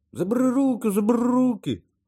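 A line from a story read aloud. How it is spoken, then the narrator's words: Gnome squealing. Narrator (Ukrainian): верещав гном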